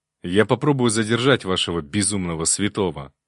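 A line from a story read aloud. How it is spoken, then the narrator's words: Angry reply. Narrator (Russian): зло ответил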